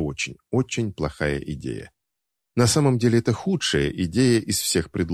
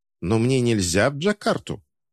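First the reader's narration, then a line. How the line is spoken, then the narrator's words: Irritated question. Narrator (Russian): Командир раздраженно спрашивает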